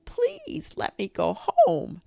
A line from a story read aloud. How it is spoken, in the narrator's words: A squeaky voice whined